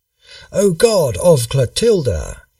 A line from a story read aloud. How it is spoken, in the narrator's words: cried